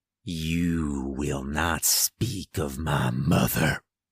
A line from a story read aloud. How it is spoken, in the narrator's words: he growled